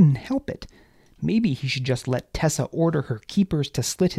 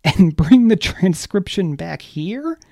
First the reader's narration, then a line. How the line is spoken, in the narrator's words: Baz began laughing hysterically